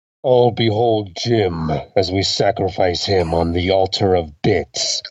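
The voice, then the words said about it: Darth Vader voice, breathing into mug. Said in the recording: “using this IKEA coffee mug for my Darth Vader impression ... The breathing was good. Breathing in that mug.”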